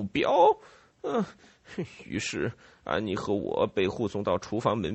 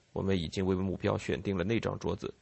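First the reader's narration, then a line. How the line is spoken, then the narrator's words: Low voice. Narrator (Chinese): 他低声对我说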